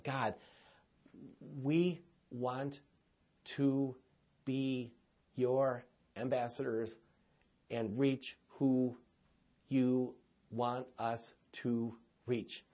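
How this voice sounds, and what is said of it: Very slow, deliberate speech. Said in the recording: “I said that very slowly”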